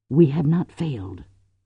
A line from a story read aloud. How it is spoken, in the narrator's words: Cordelia whispered